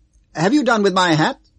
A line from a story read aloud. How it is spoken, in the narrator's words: said loudly